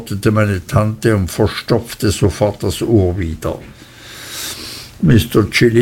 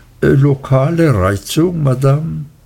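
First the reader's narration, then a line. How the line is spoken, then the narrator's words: Gentle repetition. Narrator (German): Er wiederholte sanft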